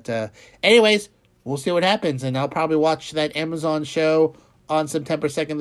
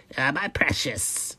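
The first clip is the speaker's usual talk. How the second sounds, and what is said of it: Raspy throaty creature voice impression. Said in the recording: “I don't have a good Gollum impression. It's really rough on the throat. Really rough on the throat.”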